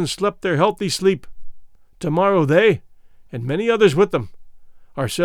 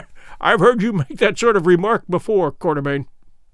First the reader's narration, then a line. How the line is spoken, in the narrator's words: Sir Henry laughed as he answered